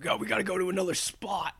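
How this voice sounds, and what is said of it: Impression of a friend's voice. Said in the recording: “You're good at impersonating him. That's what I would imagine, like him saying.”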